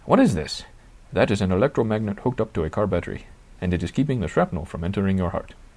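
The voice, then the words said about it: Put-on Indian accent. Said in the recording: “My apologies for the Indian accent.”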